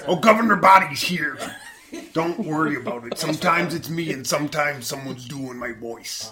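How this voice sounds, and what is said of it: Imitates another person's voice. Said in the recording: “Impersonation of the year. In almost a landslide, went to Jesse Ventura. ... Wait, you're saying that's an impersonation?”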